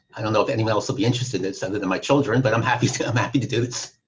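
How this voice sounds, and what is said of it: New York accent. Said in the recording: “as you can pick up from my accent, originally from New York”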